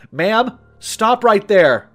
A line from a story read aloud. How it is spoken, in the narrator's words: Trooper Shay yelled